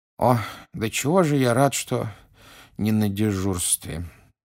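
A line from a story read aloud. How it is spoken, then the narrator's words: Sleepy mutter. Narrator (Russian): сонно пробормотал мистер Уизли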